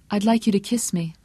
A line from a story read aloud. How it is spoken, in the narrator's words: she said calmly